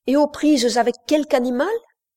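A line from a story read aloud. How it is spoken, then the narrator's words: Exclaimed. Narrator (French): s'écria Wilcox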